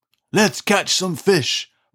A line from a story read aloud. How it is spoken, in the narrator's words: roared, banging his toy drum